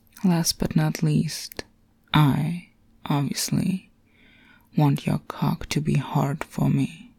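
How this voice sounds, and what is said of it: Sultry, seductive voice. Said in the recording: “my delicious, sexy voice”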